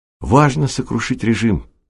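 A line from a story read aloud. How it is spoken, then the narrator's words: Exclaiming. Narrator (Russian): воскликнул Аркадий Оладьев и, вскипев, продолжал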